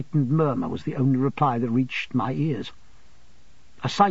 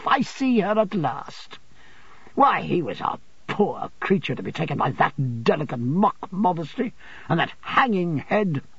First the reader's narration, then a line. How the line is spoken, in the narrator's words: said Rosa Dartle with a contemptuous laugh